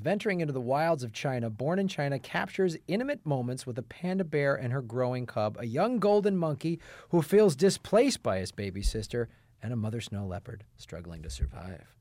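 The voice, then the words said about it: Dramatic announcer voice. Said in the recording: “I really put my announcer voice on when I did it because I really wanted to ramp it up a little bit.”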